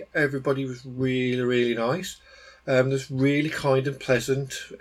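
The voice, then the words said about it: English Midlands accent. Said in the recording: “local people there than I expected, like from the Midlands, and um, they were actually pretty chuffed to um, hear a local accent”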